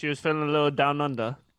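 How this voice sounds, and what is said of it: Imitates another person's voice. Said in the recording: “is that your best Sarah impersonation?”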